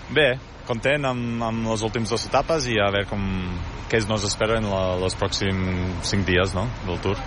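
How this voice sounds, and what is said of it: Catalan with an Olot accent. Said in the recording (Catalan): “ets un australià amb accent olotí”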